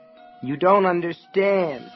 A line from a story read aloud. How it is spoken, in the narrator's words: she moaned